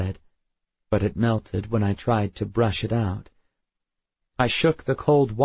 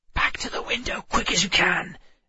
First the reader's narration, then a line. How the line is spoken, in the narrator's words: Emma hissed